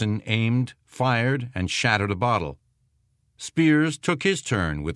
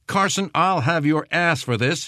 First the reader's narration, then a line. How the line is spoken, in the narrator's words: he shouted